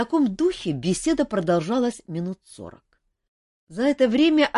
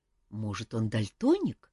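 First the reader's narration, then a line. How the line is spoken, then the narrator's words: Quiet speculation. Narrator (Russian): тихонько предположил мэтр Истран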